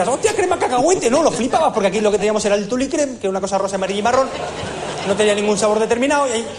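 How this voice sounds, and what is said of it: Usual voice. Nothing is said of it.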